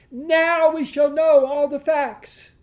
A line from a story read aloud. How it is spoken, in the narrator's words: the pastor cried out to the crowd